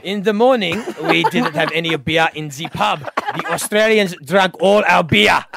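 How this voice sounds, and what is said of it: Put-on Russian accent. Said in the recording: “you can do a Russian accent”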